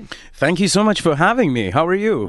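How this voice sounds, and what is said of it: Projected, actor-like voice. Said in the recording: “you sound like an actor. Listen to that projection.”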